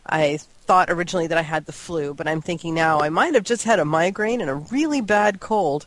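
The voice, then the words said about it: Voice sounds ill. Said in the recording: “as you might be able to hear in my voice, I've been a little bit ill this week.”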